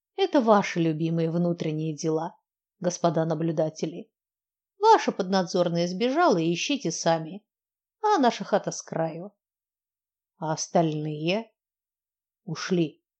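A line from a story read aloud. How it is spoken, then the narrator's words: Grumbled, spider. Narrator (Russian): буркнул паук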